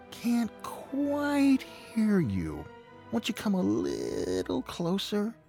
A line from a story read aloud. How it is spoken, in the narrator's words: said the fox in a feeble voice